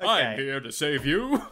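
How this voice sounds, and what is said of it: Deep 1940s radio hero voice. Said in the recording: “speaking in a deeper voice ... basically the 40s radio version of Superman. That's the voice that he has”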